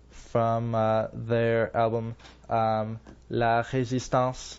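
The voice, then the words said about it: French accent on a word. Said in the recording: “that's my French accent.”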